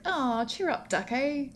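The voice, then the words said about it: Bad imitation British accent. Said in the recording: “My terrible British accent.”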